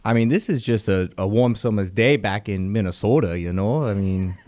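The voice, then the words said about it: Put-on regional accent. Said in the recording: “I didn't know where that accent was going.”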